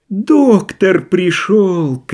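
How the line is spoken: Shout then laughter. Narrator (Russian): крикнул он и захохотал

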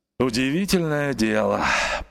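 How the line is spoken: Grumbling. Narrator (Russian): проворчал он

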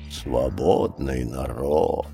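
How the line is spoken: Grumble. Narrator (Russian): проворчал Ка

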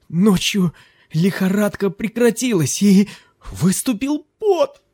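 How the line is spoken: Excited exclamation. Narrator (Russian): воскликнул он

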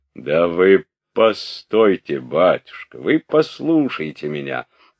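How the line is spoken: Deep bass voice interrupting. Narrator (Russian): перебил штаб-ротмистра своим басистым голосом

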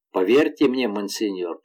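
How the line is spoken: Muffled grim voice. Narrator (Russian): продолжал Гастон глухо и мрачно

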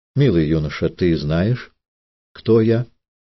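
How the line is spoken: Quiet, solemn question. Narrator (Russian): Она спросила его тихо и торжественно

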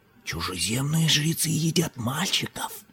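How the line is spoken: Whisper. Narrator (Russian): прошептал Чхолал

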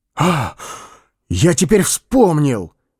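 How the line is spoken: Exclamation. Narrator (Russian): вскрикнул он

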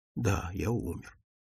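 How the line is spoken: Quiet, to himself. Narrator (Russian): тихо ответил он сам себе

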